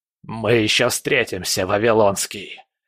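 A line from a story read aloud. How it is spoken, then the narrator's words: Hissed farewell. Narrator (Russian): прошипел на прощание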